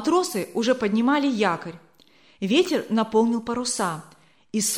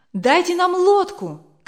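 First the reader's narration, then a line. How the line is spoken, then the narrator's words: Group shouting. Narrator (Russian): кричали пилигримы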